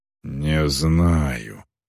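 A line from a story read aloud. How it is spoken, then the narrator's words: Sullen mutter. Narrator (Russian): угрюмо пробормотала Эльвар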